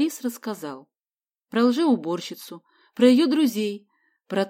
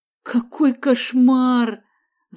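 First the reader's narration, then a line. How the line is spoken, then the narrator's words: Moaning. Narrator (Russian): застонал Мариан Самсонович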